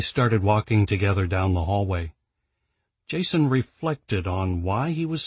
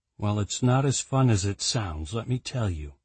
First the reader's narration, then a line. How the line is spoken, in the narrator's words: he said in a dry tone